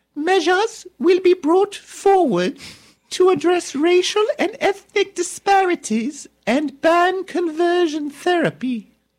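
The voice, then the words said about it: So-so Queen Elizabeth impression. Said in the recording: “That's my Queen Elizabeth dialect needs impression. Some work. ... Do I sound like her? ... 6 out of 10.”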